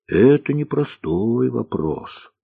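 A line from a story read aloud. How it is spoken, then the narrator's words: Cook's sigh. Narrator (Russian): вздохнула повариха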